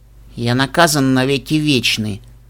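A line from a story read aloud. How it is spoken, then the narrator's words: Uncertain snort. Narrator (Russian): Фыркнул Нед, еще не определившись, что думает по этому поводу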